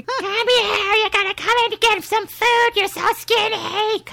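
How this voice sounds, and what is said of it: Bad Fran Drescher New York impression. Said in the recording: “Fran Drescher ... she has a very distinctive voice ... Kind of with a New York accent. That's a very bad rendition of it.”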